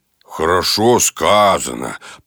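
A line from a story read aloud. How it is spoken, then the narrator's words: Grumbling. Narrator (Russian): проворчал Балу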